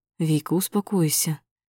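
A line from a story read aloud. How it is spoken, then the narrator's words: Soft speech. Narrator (Russian): мягко проговариваю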